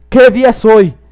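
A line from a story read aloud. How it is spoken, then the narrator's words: Shouted down to boy. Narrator (Spanish): gritó Scrooge a un chico que estaba abajo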